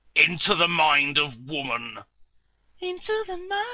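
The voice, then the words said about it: Deep-voiced jingle. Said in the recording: “Why is that with a deep voice?”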